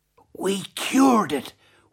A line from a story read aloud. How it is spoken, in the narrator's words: whispered Emmy Lou, trying not to disturb the sleeping monster